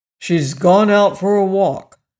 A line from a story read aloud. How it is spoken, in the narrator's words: said Jim gruffly